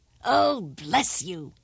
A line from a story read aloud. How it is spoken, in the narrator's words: cried the king